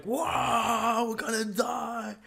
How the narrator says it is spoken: I scream

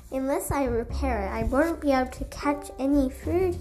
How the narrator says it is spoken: he exclaimed

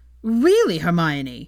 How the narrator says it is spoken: Ron shouted in outrage, she nearly flinched at the amount of ire in his voice

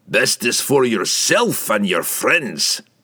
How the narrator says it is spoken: Bruner growled

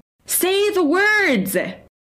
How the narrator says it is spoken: I heard her scream

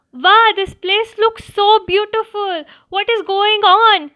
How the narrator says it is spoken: exclaimed the rabbit in wonder

